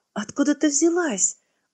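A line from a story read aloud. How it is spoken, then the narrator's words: Surprised exclamation. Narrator (Russian): удивленно воскликнула она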